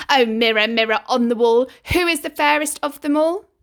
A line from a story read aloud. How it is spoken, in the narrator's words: the spoiled and stupid queen would shout